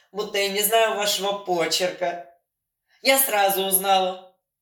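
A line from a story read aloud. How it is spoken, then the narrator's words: Girl guffawing. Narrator (Russian): хохотала девица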